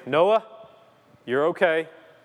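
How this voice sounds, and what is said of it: Firm dad voice. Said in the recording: “I'll use my dad voice”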